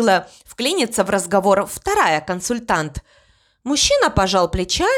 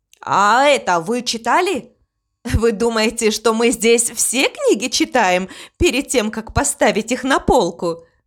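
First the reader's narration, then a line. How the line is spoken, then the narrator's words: Laughing young woman. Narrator (Russian): засмеялась девушка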